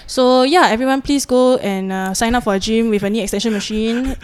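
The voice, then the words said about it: Singaporean English accent. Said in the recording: “I'm loving hearing this Singaporean accent. It's so refreshing. ... I love the Malaysian Singapore accent.”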